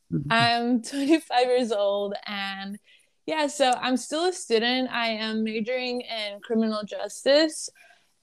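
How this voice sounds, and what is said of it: Lebanese-accented English. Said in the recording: “I was born in Lebanon. So I've only been in the United States since I was 10 ... if you hear me have an accent, it's because of that.”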